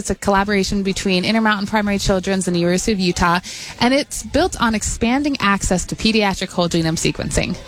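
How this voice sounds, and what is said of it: Speaking very fast. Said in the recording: “said it fast”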